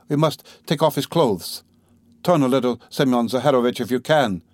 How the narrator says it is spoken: she cried to him

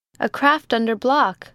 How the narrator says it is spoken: shouted the lookout

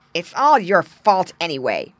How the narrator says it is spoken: snarled Slasher, the biggest and crossest fish

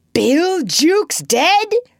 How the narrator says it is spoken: cried the startled pirates

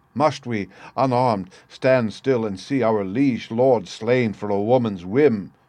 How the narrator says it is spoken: he cried

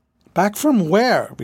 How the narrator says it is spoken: retorted John scornfully

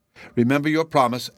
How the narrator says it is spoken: answered the mother angrily

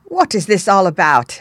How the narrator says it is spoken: exclaimed

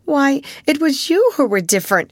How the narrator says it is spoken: she cried

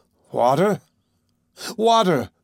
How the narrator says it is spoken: I cried

